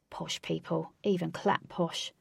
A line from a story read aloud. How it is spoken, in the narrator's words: Flash, under his breath, said